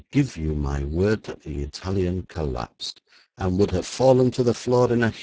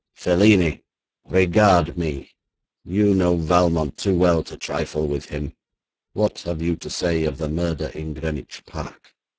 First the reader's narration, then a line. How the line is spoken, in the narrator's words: cried in a menacing voice